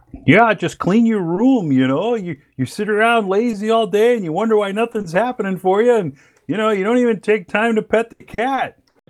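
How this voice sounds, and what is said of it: Kermit the Frog-like impression voice. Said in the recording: “If I could do a Kermit voice, I'd tell you to clean your room ... that impression”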